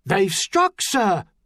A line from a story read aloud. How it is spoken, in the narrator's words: Edwards cried in his ear